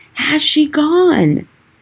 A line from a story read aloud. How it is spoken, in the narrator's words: shouted again